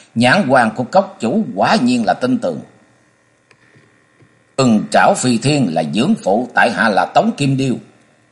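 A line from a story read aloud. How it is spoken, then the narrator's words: Loud laughing man. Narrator (Vietnamese): Trang Nam Nhân tuấn tú nọ cười lớn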